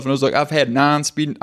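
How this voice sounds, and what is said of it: Put-on Southern accent. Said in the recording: “I don't know why I gave myself a Southern accent.”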